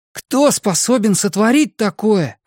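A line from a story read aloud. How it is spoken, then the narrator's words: Exclaimed. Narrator (Russian): воскликнул Дриан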